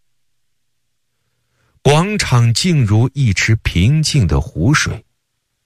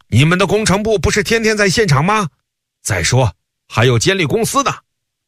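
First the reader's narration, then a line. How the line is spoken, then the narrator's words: Someone shouting. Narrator (Chinese): 有人高喊起来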